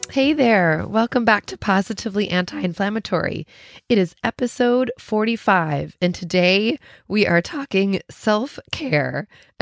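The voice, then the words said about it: Sick voice with a cold. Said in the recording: “you can tell from my voice that I'm a little sick. I have a little cold”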